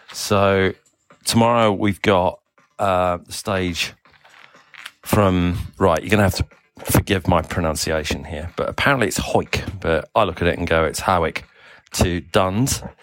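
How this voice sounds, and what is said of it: Semi Australian, South African English accent. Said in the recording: “my semi Australian, South African English accent”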